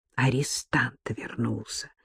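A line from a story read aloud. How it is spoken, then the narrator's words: Whisper. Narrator (Russian): шепнул Маше на ухо Бабкин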